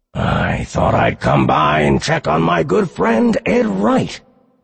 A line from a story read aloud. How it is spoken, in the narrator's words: Charon said, his voice like a constant screech of nails over chalkboard